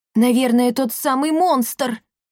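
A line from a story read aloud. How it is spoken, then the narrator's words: Squeaky voice. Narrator (Russian): пискнул Пима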